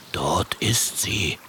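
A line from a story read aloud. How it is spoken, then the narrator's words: Whisper. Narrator (German): flüstert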